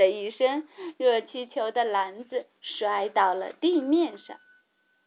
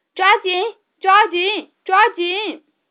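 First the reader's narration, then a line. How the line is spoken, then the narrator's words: Loud command. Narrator (Chinese): 查理大叔大声命令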